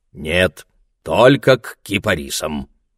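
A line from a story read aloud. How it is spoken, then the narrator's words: Old man answering. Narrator (Russian): ответил старик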